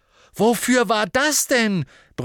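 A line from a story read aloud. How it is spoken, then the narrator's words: Roared. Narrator (German): brüllte Harry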